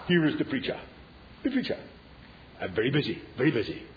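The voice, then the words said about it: Put-on Indian accent. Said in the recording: “the Indian accent, of course, I just added to the drama of it”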